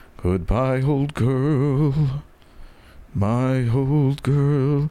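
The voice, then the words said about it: Low old man singing voice. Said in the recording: “I would sing it down here. I would sing it down in my old man voice.”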